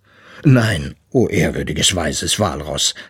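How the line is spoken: Plain. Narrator (German): sagte Papa Eisbär

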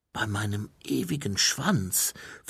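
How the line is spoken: Reverent whisper. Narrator (German): flüsterte Mumin andächtig

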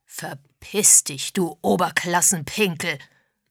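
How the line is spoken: Roar. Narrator (German): brüllte Mr

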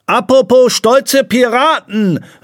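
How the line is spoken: Calling out. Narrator (German): rief Pistolenpier

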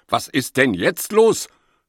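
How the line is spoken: Angry question. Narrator (German): fragt Opa Ewald wütend

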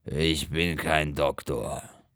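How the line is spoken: Grumbling angrily. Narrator (German): Rickel brummt bös

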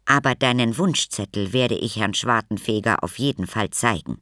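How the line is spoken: Plain. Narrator (German): sagte sie

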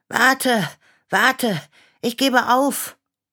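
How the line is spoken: Panting call. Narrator (German): rief Clara schnaufend

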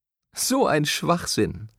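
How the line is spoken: Laughing. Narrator (German): Sara lachte

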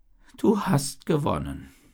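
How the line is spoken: Hermit sighing. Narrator (German): sagte der Einsiedler mit einem Seufzer

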